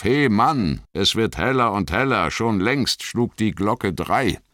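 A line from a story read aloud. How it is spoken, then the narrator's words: Innkeeper calling out. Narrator (German): Der Wirt rief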